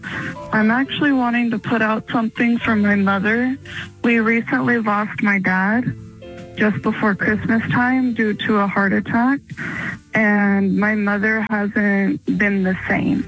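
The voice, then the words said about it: Sad-sounding voice. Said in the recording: “do you sound sad ... that is why you sound sad”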